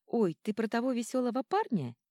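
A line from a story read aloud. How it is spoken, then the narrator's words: Giggle. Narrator (Russian): хихикает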